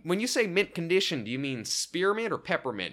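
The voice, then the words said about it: Exaggerated Southern US twang. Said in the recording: “Southern twang I was given. I'm putting a little too much stank on that Southern accent”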